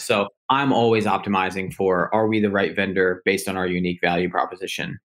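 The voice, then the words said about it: American accent. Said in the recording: “our listeners can clearly hear an American accent”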